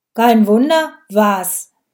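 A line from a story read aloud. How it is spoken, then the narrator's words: Loud, crisp, clipped. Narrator (German): Der Polizist sprach laut, deutlich und zackig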